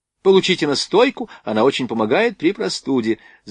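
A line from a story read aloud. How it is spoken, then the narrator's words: Girl rapidly chattering. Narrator (Russian): затараторила девушка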